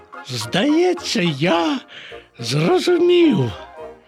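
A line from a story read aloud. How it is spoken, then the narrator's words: Exclaimed. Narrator (Ukrainian): вигукнув Боня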